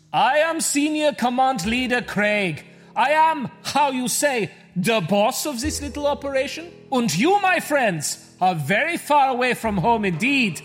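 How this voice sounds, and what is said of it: Fake foreign accent. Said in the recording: “Why is he doing a fake accent?”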